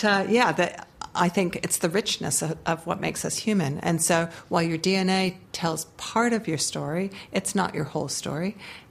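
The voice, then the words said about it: American accent. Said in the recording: “I can be sitting here in Aotearoa with an American accent”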